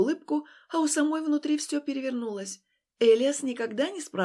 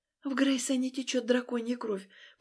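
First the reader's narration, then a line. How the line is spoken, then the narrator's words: Whispered confession. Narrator (Russian): призналась шепотом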